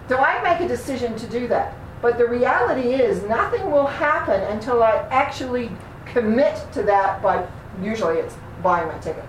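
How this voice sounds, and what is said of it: Slight New Zealand accent. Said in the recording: “I'm from New Zealand, which is why I sometimes have a funny accent. Long time ago, but it's still there at times.”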